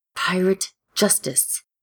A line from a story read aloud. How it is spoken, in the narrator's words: Ed hisses, trying for menacing